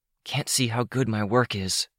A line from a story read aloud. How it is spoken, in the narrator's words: Vista whispered